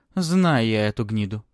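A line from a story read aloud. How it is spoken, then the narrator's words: Grumbling. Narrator (Russian): проворчала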